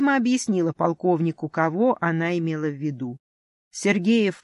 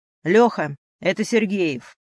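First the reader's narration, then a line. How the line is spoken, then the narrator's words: Barked into phone. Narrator (Russian): рявкнул полковник в телефонную трубку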